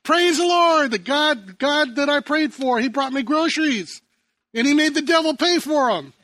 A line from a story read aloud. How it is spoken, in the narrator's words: the woman with a big smile and shouts out to the neighborhood